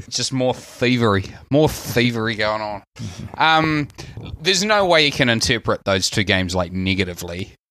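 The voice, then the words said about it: New Zealand accent. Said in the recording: “accent, I've been accused of being an Australian so many times I've lost count ... My Kiwi accent, like I'm so Kiwi, I'm Australian.”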